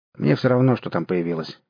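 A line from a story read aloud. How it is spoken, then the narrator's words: Sudden sharp reply. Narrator (Russian): неожиданно резко ответил Ломакин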